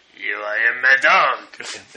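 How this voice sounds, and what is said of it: Put-on French accent. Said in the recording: “Why does your Mad Dog sound like your Sandman? ... I do it with a French accent”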